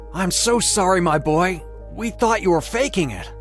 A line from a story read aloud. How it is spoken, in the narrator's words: cried